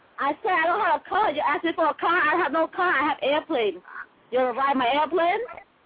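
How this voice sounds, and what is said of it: Strong put-on accent. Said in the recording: “people from Boston had that strong-ass accent ... I have a strong accent”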